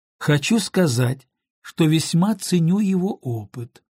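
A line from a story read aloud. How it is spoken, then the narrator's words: Calm objection. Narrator (Russian): спокойно возразил Том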